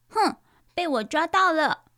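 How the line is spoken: Yelling. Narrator (Chinese): 糟糟大叫着

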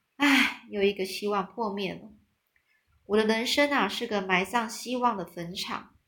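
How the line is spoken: Disappointed lament. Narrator (Chinese): 安呢失望的哀叹着说

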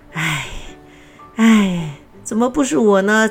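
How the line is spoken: Sighing. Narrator (Chinese): 这样的叹息声

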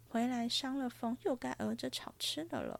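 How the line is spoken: Sighing. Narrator (Chinese): 黛玉叹道

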